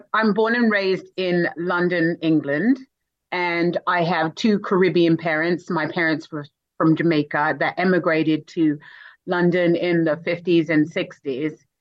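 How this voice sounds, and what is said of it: Non-American accent. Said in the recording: “obviously not in America from your accent”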